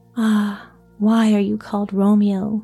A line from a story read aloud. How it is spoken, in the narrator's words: said Juliet